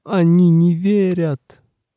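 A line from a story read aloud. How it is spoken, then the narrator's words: Bursting into sobs. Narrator (Russian): колдун разрыдался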